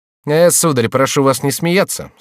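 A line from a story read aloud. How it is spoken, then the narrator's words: Dry. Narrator (Russian): сказал сухо Франсуа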